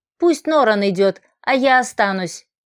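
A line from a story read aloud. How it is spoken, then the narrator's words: Eldest son's firm voice. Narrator (Russian): твердым голосом проговорил Ингар, старший сын Гарана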